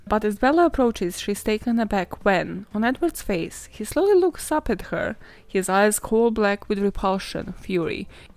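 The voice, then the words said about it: Serious reading voice. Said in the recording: “Serious voice.”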